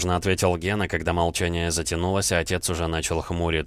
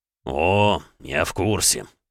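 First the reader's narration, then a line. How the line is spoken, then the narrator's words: Through gritted teeth. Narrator (Russian): процедил Александр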